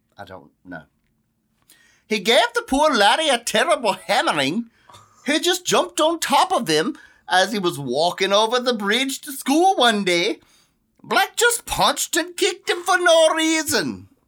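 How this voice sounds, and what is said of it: Awful put-on accent. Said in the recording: “That's the most awful freaking accent.”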